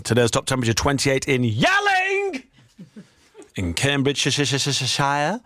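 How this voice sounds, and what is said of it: Shouting. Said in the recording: “Sorry for shouting”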